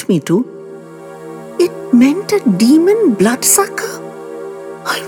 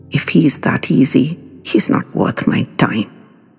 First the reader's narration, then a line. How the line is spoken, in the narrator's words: Rinki muttered venomously